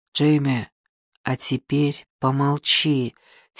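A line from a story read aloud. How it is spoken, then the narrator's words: Quiet. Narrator (Russian): тихо произнес Яни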